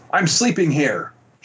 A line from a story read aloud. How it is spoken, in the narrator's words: yelled